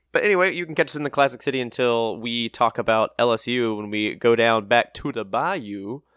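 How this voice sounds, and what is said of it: Poor put-on Louisiana accent. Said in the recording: “my very best Louisiana accent, which is terrible.”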